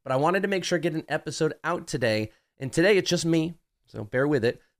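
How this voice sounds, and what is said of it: Nasal, congested voice. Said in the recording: “You can kind of hear it in me a little bit. I'm a little bit nasally ... I was a little congested”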